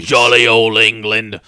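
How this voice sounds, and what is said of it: Loud put-on Cockney accent. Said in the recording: “Ooh, getting a little loud over there. Your little Cockney accent over there.”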